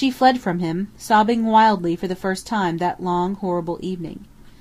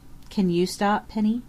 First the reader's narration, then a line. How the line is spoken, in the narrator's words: he asked gently